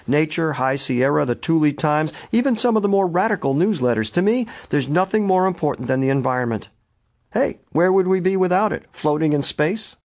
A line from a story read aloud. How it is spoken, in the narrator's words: Delaney laughed